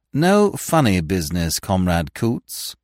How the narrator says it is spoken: said Smith

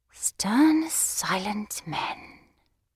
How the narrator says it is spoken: I murmured to myself in an ecstasy

